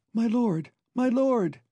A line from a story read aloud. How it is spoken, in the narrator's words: cried a sweet, excited voice in Cullen's ear